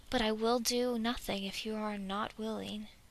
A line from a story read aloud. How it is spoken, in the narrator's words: Dwalin says calmly